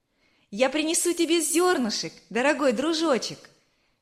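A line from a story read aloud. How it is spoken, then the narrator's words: Cheerful shout. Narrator (Russian): весело крикнула Верочка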